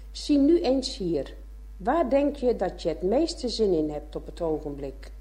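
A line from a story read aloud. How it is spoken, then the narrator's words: Encouraging, urging. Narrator (Dutch): spoorde de kinderen aan dat ze het ervan nemen zouden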